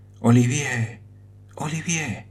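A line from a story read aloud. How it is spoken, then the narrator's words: Faint fainting murmur. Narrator (Spanish): murmuró cayendo desmayada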